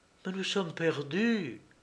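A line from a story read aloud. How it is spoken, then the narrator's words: Moan. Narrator (French): gémit-elle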